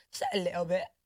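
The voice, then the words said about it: Attempted English accent, done poorly. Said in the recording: “what's it the English accent? ... No, I did it wrong.”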